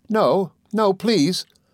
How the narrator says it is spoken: cried Dora

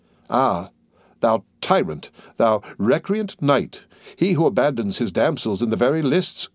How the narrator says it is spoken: cried

